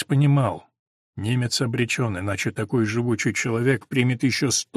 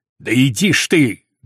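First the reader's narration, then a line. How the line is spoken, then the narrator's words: Barked. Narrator (Russian): гаркнул Махнаков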